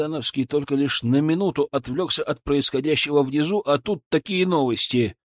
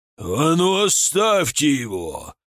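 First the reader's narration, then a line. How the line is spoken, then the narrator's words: Breathless roar. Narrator (Russian): взревел запыхавшийся от бега Рамадановский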